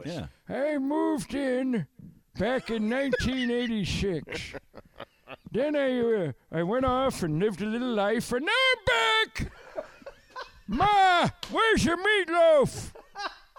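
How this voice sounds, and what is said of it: Old man voice. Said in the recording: “Old man voice. ... your old guy voice”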